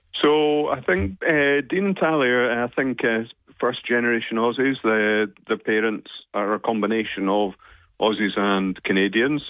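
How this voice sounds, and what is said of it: Scottish accent. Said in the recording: “as you can guess from my accent, now Scottish”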